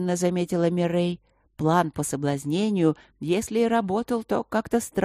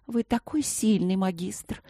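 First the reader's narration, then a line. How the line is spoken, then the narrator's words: Persistent cooing. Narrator (Russian): ворковала королева у его плеча, не сдаваясь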